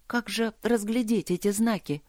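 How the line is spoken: Plain. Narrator (Russian): спросила она

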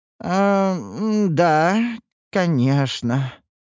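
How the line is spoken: Disappointed drawl. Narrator (Russian): разочарованно протянул Гилберт, рассчитывающий на иной исход

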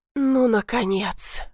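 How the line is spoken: Relieved exhale. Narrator (Russian): выдохнула я

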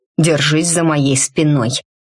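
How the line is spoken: Growl. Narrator (Russian): прорычал Мрак

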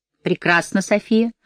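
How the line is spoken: Gloomy she-wolf speaking. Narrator (Russian): мрачно проговорил волчица

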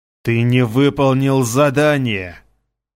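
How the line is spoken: Hissing rat. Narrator (Russian): прошипел крыс

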